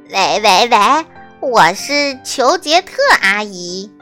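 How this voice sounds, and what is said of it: Pinched-nose fake female voice. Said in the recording (Chinese): “他会捏着鼻子，假装女生的声音”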